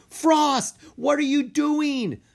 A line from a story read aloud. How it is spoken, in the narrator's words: Mina yelled at her dragon